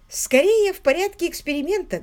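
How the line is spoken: Light, joking tone. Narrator (Russian): говорил Уимзи легкомысленным шутливым тоном

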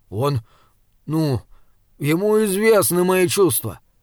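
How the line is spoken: Halting, muttering. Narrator (Russian): запинаясь, пробормотал Джеремия

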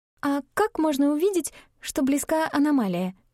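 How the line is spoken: Timid squeak. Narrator (Russian): неуверенно пискнула Габриэль

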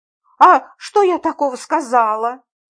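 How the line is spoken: Grumbling. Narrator (Russian): проворчала я

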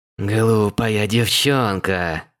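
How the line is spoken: Snake-like hiss. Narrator (Russian): зашипела она, как змея

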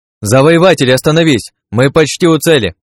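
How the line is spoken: Shouted. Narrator (Russian): крикнула Шани

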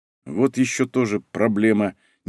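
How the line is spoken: Cat's displeased grumble. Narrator (Russian): недовольно буркнул кот

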